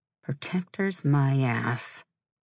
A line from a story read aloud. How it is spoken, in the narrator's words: murmured